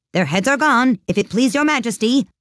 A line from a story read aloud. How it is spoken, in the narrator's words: the soldiers shouted in reply